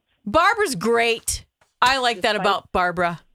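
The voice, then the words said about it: Yelling. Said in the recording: “Why are you yelling”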